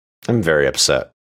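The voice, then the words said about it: British-sounding accent. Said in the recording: “sounded really British”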